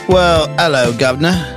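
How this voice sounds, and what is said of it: Weak put-on British accent. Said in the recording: “I'm working on my British accent. ... Work on it more.”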